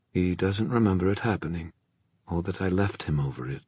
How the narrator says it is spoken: Mark said grimly

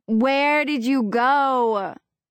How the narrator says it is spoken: yells

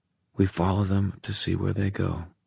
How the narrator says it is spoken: he said quietly

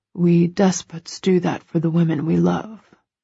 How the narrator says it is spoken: murmurs

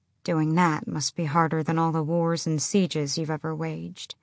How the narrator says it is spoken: His face and voice didn't change, but she said softly

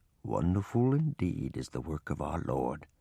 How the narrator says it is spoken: Papa murmur in a low voice

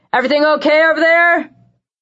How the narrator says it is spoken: the voice that yelled

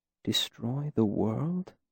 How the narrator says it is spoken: Selitos said softly to himself

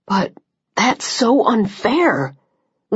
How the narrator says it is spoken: Liam said, his voice strained with a second wave of anger

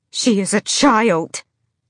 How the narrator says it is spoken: Marian bellowed

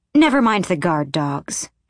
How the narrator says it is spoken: she snapped

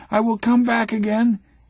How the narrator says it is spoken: He cries

